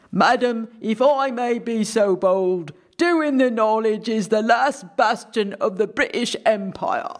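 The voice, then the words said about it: Convincing put-on British accent. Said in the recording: “that sounded really, really convincing to me as an accent”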